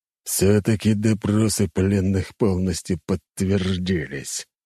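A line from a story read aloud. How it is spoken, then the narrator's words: Through gritted teeth. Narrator (Russian): процедил сквозь зубы император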